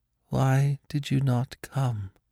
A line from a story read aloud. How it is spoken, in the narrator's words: sounded a distinct whisper